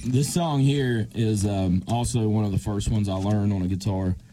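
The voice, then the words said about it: Put-on radio announcer voice. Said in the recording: “Using my best radio voice.”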